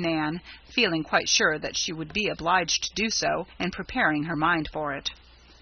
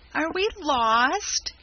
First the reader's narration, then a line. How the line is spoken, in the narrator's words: quavered Rob, clasping his pail in despair